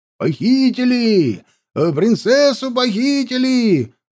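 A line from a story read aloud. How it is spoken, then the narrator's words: Yelling stocky man. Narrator (Russian): заорал коренастый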